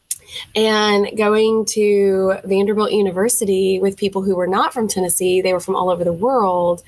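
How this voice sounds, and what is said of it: Southern American accent. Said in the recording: “I have a Southern accent that comes out”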